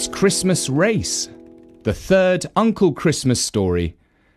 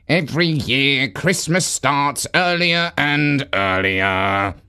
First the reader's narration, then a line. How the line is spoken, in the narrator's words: grumbled Dasher